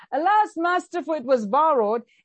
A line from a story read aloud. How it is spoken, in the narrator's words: cried out and he said